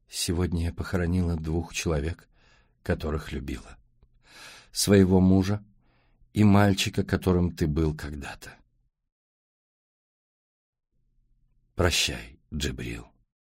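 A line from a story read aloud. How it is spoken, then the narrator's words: Sad. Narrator (Russian): Мириам грустно сказала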